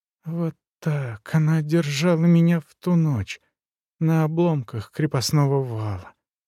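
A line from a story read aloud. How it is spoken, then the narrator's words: Whispering. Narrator (Russian): прошептал Везин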